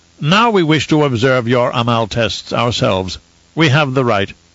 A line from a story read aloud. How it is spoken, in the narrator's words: Zaf announced in a pompous tone